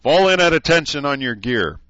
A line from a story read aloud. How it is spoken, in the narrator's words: Decurie and Jones shouted